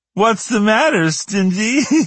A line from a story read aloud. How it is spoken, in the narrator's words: Sandy giggled